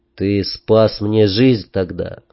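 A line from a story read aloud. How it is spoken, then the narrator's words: Sighing. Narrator (Russian): вздохнул я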